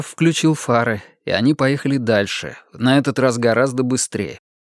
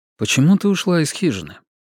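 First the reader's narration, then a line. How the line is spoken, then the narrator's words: Calm question. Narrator (Russian): Джефф спокойно спросил ее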